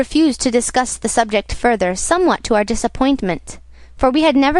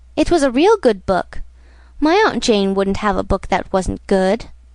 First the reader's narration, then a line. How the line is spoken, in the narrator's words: retorted Peter sulkily